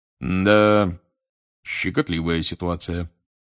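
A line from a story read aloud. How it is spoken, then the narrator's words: Gloomy remark. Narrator (Russian): мрачно заметил мистер Диггори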